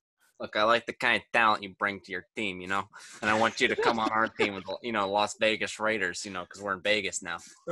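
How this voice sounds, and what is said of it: Imitates another person's voice. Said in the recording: “got a good Gruden impression.”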